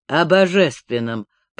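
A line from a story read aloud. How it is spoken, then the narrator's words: Grumbling mutter. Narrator (Russian): пробурчал старший казак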